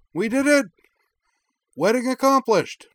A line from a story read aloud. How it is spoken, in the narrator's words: she cried into the mic